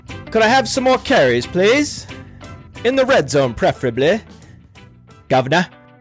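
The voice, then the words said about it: Bad put-on British accent. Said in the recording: “the bad British accent”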